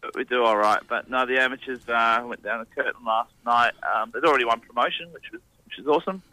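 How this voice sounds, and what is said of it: Hoarse, rough voice. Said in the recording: “if I sound a bit hoarse and a bit rough ... sounding hoarse and a bit rough”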